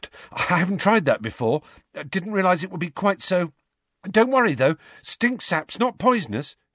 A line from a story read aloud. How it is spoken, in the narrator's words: he added nervously